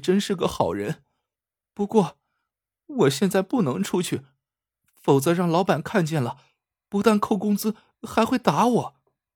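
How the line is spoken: Sobbing girl. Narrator (Chinese): 女孩边抽泣说

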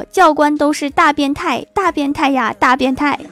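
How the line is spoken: Loud. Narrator (Chinese): 大声说

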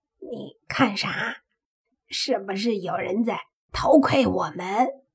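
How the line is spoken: Low voice. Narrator (Chinese): 黑猪这才低声的说

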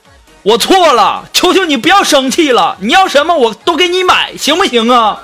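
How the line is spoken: Loud yelling. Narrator (Chinese): 大声的对你的女朋友吼，说

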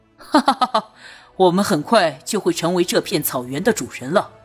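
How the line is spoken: Laughing. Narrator (Chinese): 朱瑜笑道

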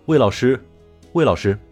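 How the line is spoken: Clear calling voice. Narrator (Chinese): 一个清晰的声音叫着

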